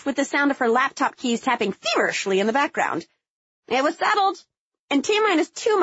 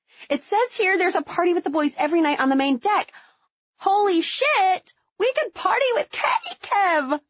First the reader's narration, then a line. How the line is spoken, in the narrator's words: I screamed